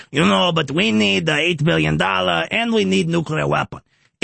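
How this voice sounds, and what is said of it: Imitates another person's voice. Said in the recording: “doing a Zelensky impression”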